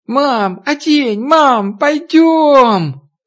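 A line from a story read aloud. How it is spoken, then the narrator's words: Girlish squeal. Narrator (Russian): Катя по девчоночке запищав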